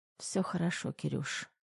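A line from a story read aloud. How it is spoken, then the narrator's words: Hoarse reassurance. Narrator (Russian): сипло заверила Тома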